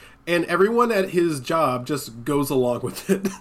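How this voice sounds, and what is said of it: Usual voice. Nothing is said of it.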